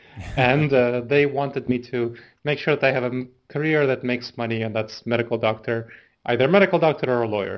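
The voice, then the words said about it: Foreign accent in English. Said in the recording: “My parents are immigrants, so I mean, I'm an immigrant. I was 10 when I came here to the U.S. I'm sure you can hear my accent.”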